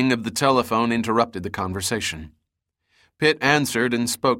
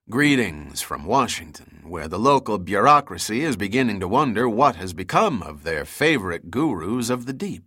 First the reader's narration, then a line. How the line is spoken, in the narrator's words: said